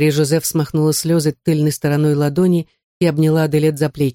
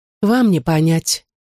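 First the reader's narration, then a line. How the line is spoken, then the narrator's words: Sighing. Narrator (Russian): вздохнула Аделет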